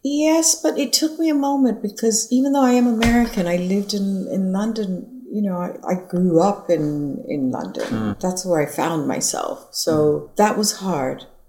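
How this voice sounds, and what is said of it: Mixed American and London accent. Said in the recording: “even your accent is a kind of combination”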